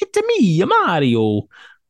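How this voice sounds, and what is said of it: Cartoony Italian Mario voice. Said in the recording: “accent ... super cartoony ... authentic Italian”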